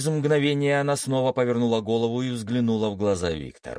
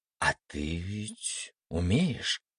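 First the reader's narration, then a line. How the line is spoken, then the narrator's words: Muffled half-questioning mumble. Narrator (Russian): То ли спрашивая, то ли утверждая, пробормотала, уткнувшись лицом в кровать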